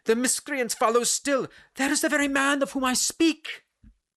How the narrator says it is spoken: she cried

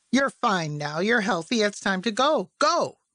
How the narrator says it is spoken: how small his voice was

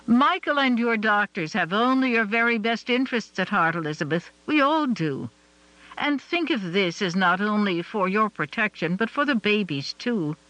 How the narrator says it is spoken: Ellen said, her voice firm

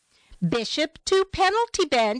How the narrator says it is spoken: called loudly

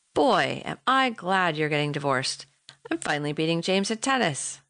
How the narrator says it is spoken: chuckled

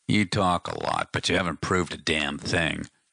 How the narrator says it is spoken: Donovan growled

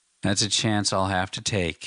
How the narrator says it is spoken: he said wearily

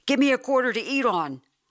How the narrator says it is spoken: I blurted out

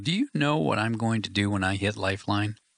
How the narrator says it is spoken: chuckled

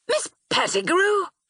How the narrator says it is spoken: I exclaimed

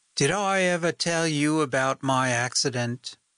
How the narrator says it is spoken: she chirped up

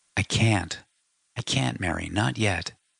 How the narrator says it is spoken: said softly

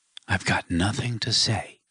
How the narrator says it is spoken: he whispered

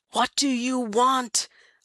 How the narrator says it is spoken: Elias Frisk bellows

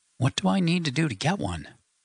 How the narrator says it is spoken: sighed

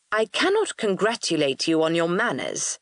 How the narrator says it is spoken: I said coldly

